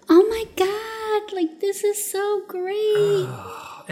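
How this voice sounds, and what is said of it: Fake, overly enthusiastic voice. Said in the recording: “that's the fake voice yep. that you were just doing”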